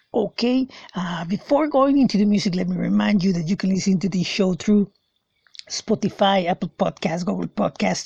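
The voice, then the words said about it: Raspy, slightly hoarse voice. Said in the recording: “I'm a little bit under the weather. That's why my voice sounds a little bit raspy”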